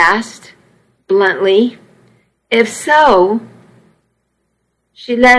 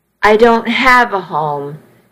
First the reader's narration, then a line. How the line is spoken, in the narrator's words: she said flatly